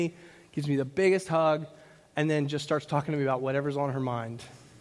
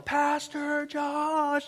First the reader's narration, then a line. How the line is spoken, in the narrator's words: she yells